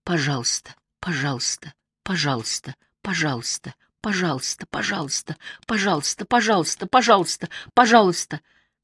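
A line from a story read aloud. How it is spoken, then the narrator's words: Very quiet repeated muttering. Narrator (Russian): бормочет, тихо-тихо, снова и снова повторяет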